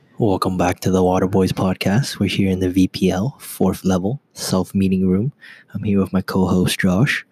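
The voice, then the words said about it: Whispering. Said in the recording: “We're whispering a little bit because the walls aren't all the way up to the roof, so people can hear us.”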